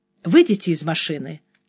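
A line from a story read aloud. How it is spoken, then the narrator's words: Calm. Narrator (Russian): спокойно произнес тот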